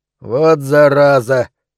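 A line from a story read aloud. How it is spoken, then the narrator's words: Grumbling mutter. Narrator (Russian): пробурчал фраер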